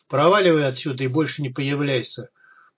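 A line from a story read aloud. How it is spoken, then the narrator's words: Goose's growl. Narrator (Russian): прорычал гусь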